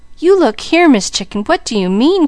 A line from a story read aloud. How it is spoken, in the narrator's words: cried Mickey wonderingly